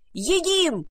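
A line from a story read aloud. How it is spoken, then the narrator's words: Fat rodent yelling. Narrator (Russian): завопил толстый грызун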